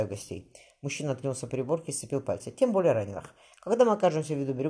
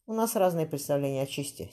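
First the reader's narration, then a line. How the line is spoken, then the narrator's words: Dry reply. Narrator (Russian): Синьор Вискайна сухо ответил ворон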